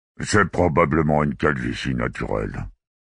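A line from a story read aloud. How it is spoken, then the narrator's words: Officer muttering. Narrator (French): marmonna l'officier de Prytive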